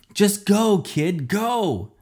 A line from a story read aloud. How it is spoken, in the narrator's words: yelled